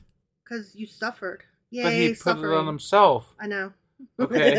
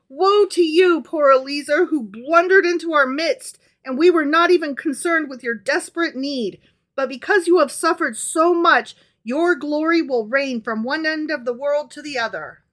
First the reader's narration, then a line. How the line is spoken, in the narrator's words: Rabbi Yohanan rent his garments and cried